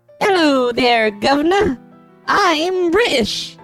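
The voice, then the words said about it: Weak put-on British accent. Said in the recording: “that's about the extent of ... British accent skills”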